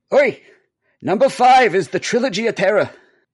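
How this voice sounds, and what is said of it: Old Jewish man voice. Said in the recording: “my best Jimmy impression, which will also be the only impression I can do. An old Jewish man.”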